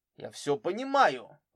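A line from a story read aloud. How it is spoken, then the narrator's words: Angry. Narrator (Russian): зло повторил Мишкович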